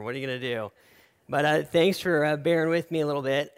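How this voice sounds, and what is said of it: Raspy, nasal voice. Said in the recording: “apologize for my voice today. It's a little raspy, got a little cold ... sorry for my voice in general. It's a little nasally”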